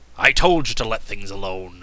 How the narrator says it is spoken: growled Cap'n Bill

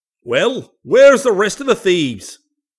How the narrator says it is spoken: he cried out, glaring fiercely

